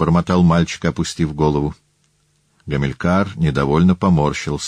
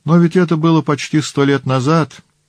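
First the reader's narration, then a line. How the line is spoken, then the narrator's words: Exclamation. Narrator (Russian): воскликнул Гамилькар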